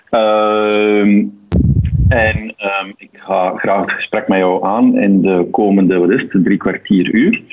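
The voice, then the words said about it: Flemish Antwerp accent. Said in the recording (Dutch): “van opleiding mijn TW in Antwerpen. Eh, zo klinkt ook mijn accent.”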